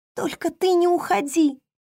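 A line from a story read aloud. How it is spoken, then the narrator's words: Speaking through sobs. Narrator (Russian): в ответ произнесла Хейли сквозь всхлипы, продолжая плакать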